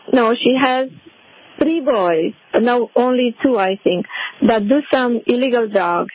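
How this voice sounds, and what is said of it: Speaks with an accent. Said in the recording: “because of your accent, I couldn't tell”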